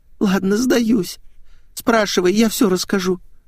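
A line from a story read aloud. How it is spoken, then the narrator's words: Groaning. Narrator (Russian): простонала Светик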